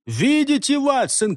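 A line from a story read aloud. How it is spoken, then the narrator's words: Shouting. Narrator (Russian): кричал он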